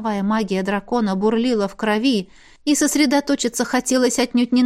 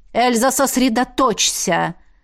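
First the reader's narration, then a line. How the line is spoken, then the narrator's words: Barking. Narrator (Russian): рявкнула Элисандра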